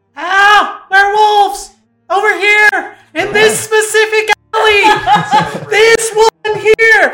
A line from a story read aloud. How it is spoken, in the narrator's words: yell